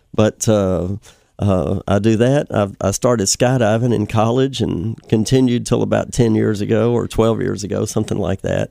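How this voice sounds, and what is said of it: Slightly sick-sounding voice. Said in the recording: “I'm fighting a little cold right now, so forgive my voice.”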